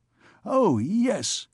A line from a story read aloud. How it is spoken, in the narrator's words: he exclaimed